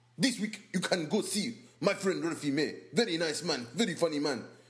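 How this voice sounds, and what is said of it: Put-on African accent. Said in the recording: “Can you do it in your African voice?”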